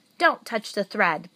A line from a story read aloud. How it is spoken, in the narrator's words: barked